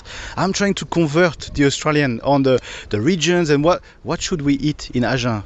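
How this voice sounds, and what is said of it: French accent. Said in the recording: “from my French accent, I'm from Paris and not from the south of France”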